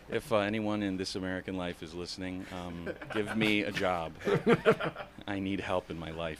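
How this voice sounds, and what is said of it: Soothing radio voice. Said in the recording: “You have a very soothing voice. ... I have a radio voice. ... You've got a good voice.”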